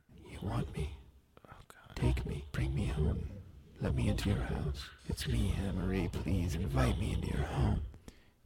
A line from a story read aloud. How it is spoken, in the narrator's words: Anna Marie whispers in Jenny's ear